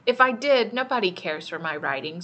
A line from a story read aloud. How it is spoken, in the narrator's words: said